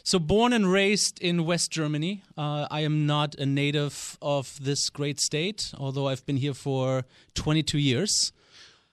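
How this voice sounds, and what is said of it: German accent in English. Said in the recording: “haven't lost the German accent”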